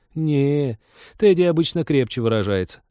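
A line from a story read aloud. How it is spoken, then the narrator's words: Laughing. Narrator (Russian): рассмеялась Лика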